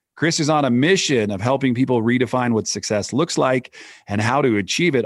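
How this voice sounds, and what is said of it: Polished, professional radio announcer voice. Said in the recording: “You truly have a radio voice. ... you've nailed the cadence and the modulation and everything. ... the professional sound of your voice”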